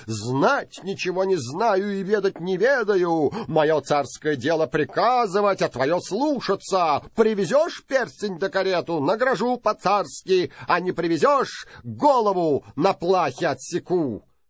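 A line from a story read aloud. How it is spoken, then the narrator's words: Angry tsar shouting. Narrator (Russian): Царь рассердился, закричал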